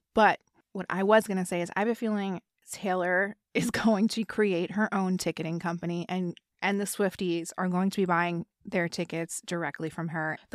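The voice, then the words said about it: Hoarse, strained, failing voice. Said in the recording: “I don't know that I can finish this episode because my voice is going.”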